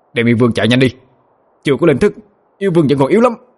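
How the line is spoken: Sharp shout. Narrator (Vietnamese): Bạch Kê Tinh quát lên

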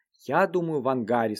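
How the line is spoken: Plain. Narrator (Russian): сказал Вик

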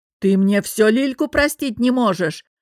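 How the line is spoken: Bellowing like wounded bison. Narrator (Russian): Раненым бизоном взревел Олег Иванович

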